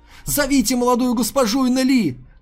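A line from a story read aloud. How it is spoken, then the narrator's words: Shouted. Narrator (Russian): крикнул Есю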